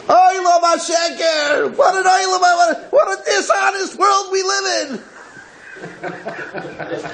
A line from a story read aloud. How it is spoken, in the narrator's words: begins to scream